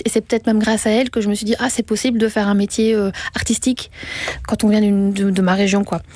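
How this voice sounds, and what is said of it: Strong regional French accent. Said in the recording (French): “j'ai un accent quand même assez fort quand je parle”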